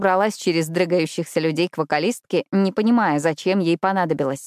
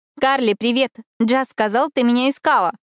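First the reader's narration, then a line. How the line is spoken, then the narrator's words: Loud greeting. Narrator (Russian): Громко поздоровалась я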